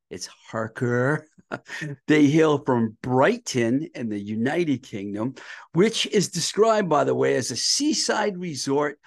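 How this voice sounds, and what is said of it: Massachusetts accent, drops R sounds. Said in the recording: “sometimes my mass accent makes it sound like Haka”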